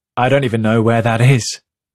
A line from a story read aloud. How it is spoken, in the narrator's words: Feta says, laughing